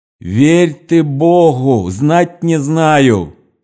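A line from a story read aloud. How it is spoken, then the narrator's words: Distant shout. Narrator (Russian): кричала арестантка с другой стороны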